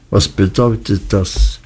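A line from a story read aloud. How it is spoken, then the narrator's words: Flat toneless voice. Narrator (German): Er sprach mit so tonloser Stimme, dass es mich fast erschreckte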